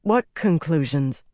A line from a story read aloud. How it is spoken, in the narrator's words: Nynaeve sighed